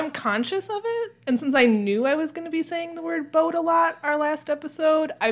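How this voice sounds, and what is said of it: Usual voice. Nothing is said of it.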